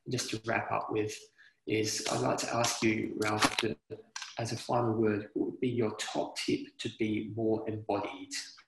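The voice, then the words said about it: Australian English accent. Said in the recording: “I love your accent... I just love your accent... you speak high English, the best one... Australian is high English”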